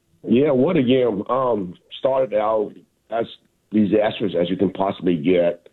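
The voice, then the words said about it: Hoarse, nearly lost voice. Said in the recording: “I actually lost my voice, so hope you can still understand.”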